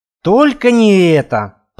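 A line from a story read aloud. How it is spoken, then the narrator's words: Groan. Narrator (Russian): простонал Рауль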